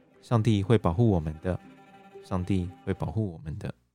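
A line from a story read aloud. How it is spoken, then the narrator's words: Soothing murmur. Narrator (Chinese): Mary 喃喃的和不断低声啜泣的女儿说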